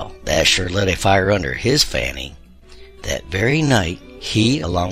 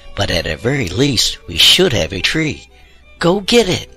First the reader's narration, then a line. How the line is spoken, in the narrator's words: exclaimed